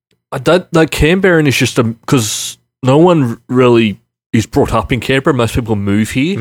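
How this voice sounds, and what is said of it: Broad Western Sydney Australian accent. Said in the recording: “I have just a full-on Westie accent”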